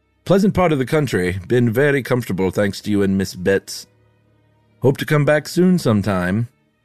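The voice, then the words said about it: Wandering put-on accent, bit Irish. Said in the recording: “This accent's all over the place ... maybe a little Irish in there ... you just slipped into Oscar Wilde”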